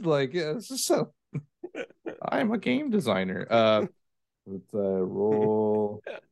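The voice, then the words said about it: Imitates another person's voice. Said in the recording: “pretty good Alex Davey impression”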